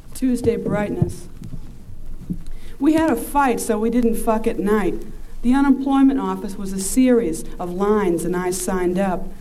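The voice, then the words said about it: Boston accent. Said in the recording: “with this great Boston accent she has”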